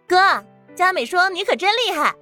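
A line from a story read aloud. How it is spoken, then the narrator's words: Playful call. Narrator (Chinese): 唐宁忍不住调皮的喊了一句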